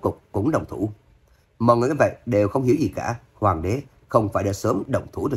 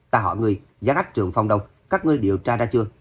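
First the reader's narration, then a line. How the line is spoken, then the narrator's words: Shout, then indifferent. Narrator (Vietnamese): Hoàng đế vỗ bàn quát, ngay sau đó lại đạm mạc nói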